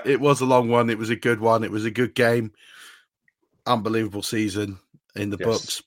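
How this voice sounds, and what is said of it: Slightly hoarse voice. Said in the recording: “The voice is a little hoarse, part cold from my child, part the fact that I was with you until 5 o'clock in the morning.”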